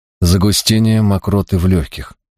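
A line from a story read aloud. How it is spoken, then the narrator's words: Plain. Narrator (Russian): ответил он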